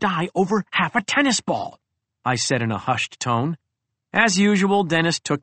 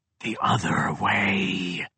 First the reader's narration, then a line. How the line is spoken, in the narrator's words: they hissed